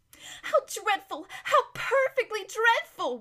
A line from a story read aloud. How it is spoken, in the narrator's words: whimpered